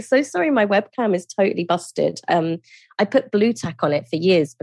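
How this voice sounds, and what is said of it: London British accent. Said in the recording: “gorgeous London British accent”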